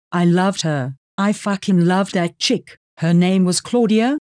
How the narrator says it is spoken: Georgie says evenly

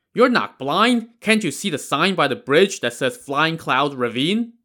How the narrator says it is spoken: scoffed

